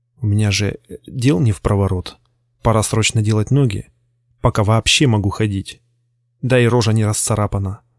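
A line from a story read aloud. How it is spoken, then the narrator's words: Inner voice whispering. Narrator (Russian): шептало мое подсознание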